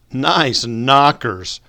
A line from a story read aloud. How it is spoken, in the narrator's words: Freddie exclaimed with a smile